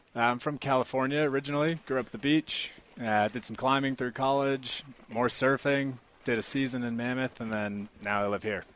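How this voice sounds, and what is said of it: Speaks with a noticeable accent. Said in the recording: “You've got a great accent.”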